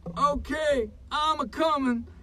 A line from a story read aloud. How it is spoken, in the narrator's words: Harley yelled back